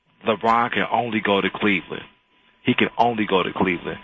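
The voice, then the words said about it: Polished radio announcer voice. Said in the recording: “I hear your radio voice, man. Very nice.”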